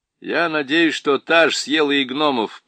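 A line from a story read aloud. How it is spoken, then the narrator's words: Grumbling. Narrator (Russian): проворчал Юстас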